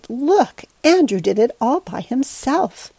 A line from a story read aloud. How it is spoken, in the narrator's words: cried out with delight